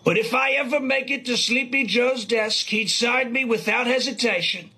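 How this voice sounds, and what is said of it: Donald Trump impression. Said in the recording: “Ooh, that is a good Trump impression.”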